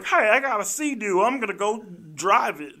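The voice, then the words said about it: Drunken Texan-sounding impression. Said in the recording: “Why did you sound like a drunken Texan? ... That's how Robert Downey Jr. sounds.”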